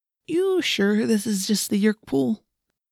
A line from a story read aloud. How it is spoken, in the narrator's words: Marco said in a nervous, shaky voice